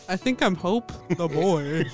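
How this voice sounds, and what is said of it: Woman putting on a low boyish voice. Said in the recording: “She's doing a voice bit. ... I do have a low voice naturally as a woman.”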